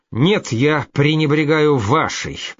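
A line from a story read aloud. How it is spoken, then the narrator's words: Said through gritted teeth. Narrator (Russian): процедил Гриц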